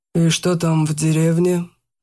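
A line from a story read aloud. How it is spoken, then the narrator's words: Deceptively calm tone. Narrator (Russian): обманчиво спокойным тоном произнес Кулешов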